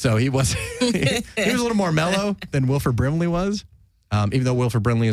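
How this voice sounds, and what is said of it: Usual voice. Nothing is said of it.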